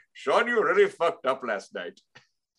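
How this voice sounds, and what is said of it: Put-on imitated accent. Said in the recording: “that accent has been canceled. The impression.”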